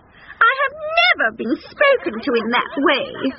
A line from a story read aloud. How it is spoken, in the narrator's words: squeaked Queenie Cow, offended